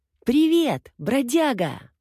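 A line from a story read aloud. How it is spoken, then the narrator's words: Shouting. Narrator (Russian): он закричал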